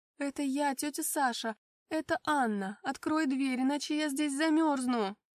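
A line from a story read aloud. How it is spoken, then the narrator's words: Loud speech. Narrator (Russian): Громко проговорила я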